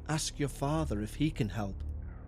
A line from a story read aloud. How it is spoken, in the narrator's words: Marjorie looked at me and said in a hushed tone